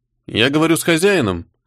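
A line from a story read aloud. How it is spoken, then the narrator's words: Calm question. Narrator (Russian): спокойно спросил Артега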